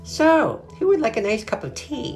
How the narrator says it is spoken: Aunt Grace said brightly

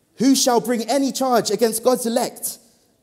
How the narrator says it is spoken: Paul shouts

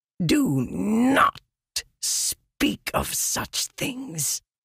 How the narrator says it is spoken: Leshwi hissed

